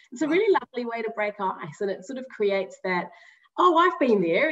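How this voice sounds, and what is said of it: New Zealand accent. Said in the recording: “I'm a Kiwi. I don't know if you've picked up the accent already”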